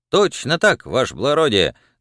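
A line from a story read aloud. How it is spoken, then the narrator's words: Joyful confident shout. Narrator (Russian): закричал Пискун радостным и уверенным голосом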